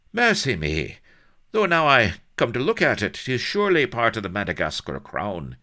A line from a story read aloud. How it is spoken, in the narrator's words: he exclaimed